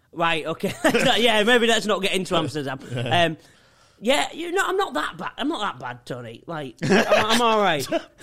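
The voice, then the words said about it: Hull English accent. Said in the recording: “Why does everyone do my accent ... Where are you from? ... Hull.”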